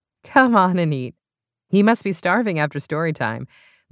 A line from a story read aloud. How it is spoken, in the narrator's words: Lindsay said